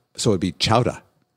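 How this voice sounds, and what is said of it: Put-on Boston accent. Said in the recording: “in the Boston accent”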